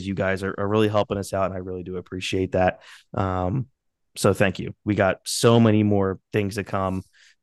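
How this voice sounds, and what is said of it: Congested, under-the-weather voice. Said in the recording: “I apologize for my voice. Um, I'm a little under the weather here ... clear my nose ... this post nasal drip”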